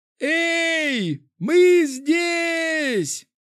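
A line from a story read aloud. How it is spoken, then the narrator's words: Shouting man on tower. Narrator (Russian): закричал один из мужчин на башне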